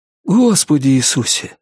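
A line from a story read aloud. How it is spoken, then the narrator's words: Breathed out. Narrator (Russian): выдохнул Норрис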